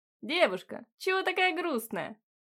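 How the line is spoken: Cheerful shout, young man. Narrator (Russian): весело крикнул парень

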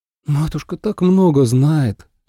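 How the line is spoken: Admiring breathless exhale. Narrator (Russian): выдохнула Ацинь восхищенно

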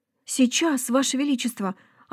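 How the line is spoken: Stunned mumble. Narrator (Russian): ошарашенно пробормотал красавчик

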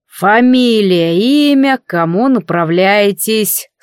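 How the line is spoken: Bored drawl. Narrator (Russian): скучающим голосом протянул охранник на входе в резиденцию

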